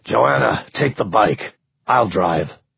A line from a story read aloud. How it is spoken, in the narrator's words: Mark growled